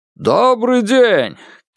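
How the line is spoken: Clear ringing melodic call. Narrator (Russian): крикнул чей-то голос, певучий и чистый, словно звук латунного колокола

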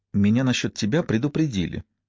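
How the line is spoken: Barely audible reply. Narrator (Russian): еле слышно ответила

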